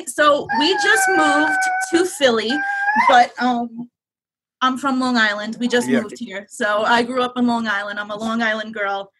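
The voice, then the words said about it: Slight New York accent. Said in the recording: “You got a little bit of a New York accent there ... we like your accent. It reminds us both of home.”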